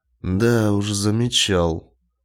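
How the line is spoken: Gloomy confirmation. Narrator (Russian): мрачно подтвердил Фрэнк

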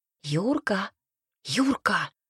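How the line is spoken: Whispered call. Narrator (Russian): шепотом позвала

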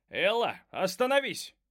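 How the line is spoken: Shout. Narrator (Russian): закричал мистер Кристал

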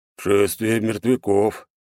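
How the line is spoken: Hoarse giant's voice. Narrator (Russian): прохрипел сидящий рядом великан

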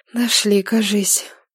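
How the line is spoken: Muffled breathy exhale. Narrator (Russian): выдохнула Нилата, прикрыв рукавом лицо

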